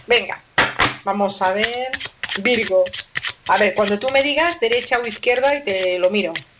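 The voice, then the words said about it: Barcelona Spanish accent. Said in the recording (Spanish): “soy de Barcelona, anda que no se me nota a mí el acento que llevo”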